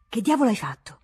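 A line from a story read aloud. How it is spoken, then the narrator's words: Stammering reply. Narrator (Italian): rispondeva balbettando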